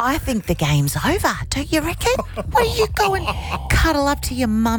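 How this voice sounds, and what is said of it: Usual voice. Nothing is said of it.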